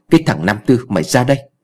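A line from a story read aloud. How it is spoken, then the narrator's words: Angry scolding. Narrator (Vietnamese): lão Khương cũng chạy vào tức giận mắng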